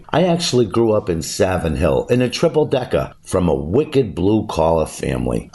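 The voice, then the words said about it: Natural Boston accent. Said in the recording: “It's where the Boston accent originated... my accent is legit, and this is how I talk.”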